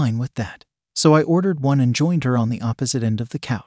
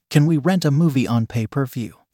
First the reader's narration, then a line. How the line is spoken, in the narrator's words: she asked